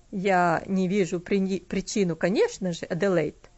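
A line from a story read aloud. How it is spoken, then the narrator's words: Dry. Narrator (Russian): сухо сказал он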